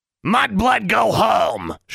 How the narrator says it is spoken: shrieked Honey from her cage

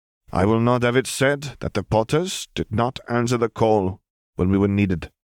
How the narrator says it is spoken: William said firmly

